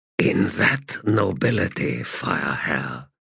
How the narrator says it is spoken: he replied in a whisper

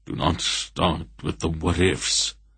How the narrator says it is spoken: said the Wolf irritably

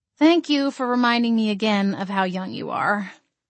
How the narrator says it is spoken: sighed

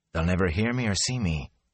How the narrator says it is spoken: he whispered to himself

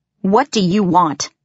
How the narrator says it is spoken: I asked harshly

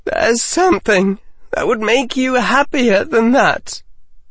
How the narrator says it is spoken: Harry said, his voice breaking again

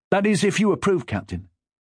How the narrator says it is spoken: Hastily, he added

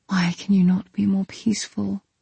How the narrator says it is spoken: I whispered

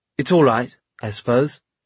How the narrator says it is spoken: he said in a rusty voice

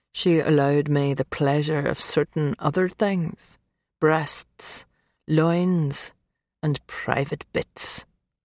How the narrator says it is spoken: he continued, his voice dropping a notch lower

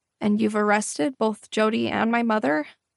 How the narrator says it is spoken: asked, my voice cracking slightly

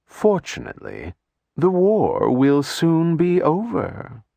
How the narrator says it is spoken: In a soothing voice, Erasmus said

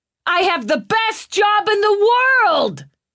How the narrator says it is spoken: he shouted over the music

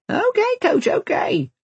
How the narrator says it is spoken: laughs Sammy

